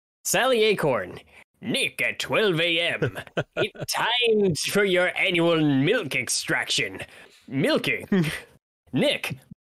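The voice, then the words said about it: Mr. Krabs cartoon voice. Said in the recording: “Voice. Do the voice. ... why did you do Sully as Mr. Krabs?”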